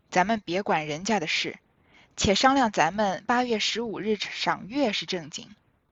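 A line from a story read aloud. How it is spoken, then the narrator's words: Sighing. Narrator (Chinese): 贾母点头叹道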